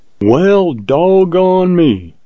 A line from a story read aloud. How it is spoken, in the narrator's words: exclaimed Jim in mild surprise